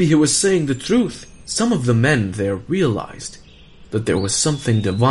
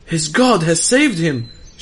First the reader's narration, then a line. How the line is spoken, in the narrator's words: shouted the others